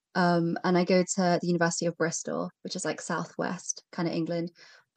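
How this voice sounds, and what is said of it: British English accent. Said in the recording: “I'm based in the UK, if you couldn't tell from my accent.”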